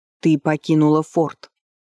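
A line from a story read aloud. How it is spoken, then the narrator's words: Stern, menacing statement. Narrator (Russian): констатировал муж грозно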